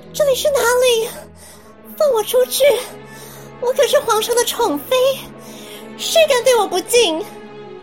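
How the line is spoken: Unrestrained screaming. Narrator (Chinese): 甄嬛顾不得形象，放声大叫

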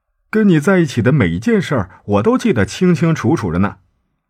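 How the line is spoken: Joking. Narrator (Chinese): 他开玩笑的问

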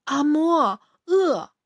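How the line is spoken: Flat, begging child. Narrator (Chinese): 当他五岁时 叫的并没有感情，只是如同向人类乞食的小动物出于本能

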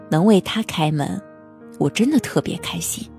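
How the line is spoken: Smiling, happy. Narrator (Chinese): 他笑着对好心人说

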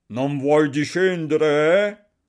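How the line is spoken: Yelling. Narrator (Italian): urlava Barbablù

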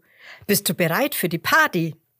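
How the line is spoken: Calling out. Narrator (German): ruft Roberto

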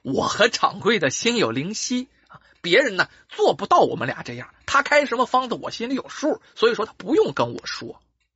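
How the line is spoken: Smiling. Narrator (Chinese): 这俊生也笑笑说

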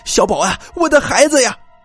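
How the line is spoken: Frantic shout while running. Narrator (Chinese): 一边跑一边喊

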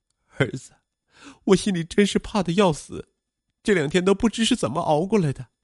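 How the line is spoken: Crying. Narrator (Chinese): 徐晓东哭道

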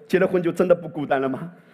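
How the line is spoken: Plain. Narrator (Chinese): 保罗在说

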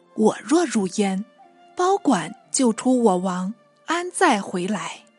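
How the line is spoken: Laughing despite himself. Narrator (Chinese): 同柴不禁失笑道

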